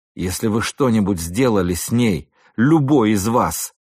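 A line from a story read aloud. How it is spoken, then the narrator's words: Growled. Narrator (Russian): прорычал я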